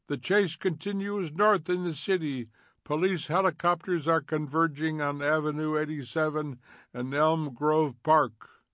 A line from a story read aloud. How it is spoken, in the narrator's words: A voice cried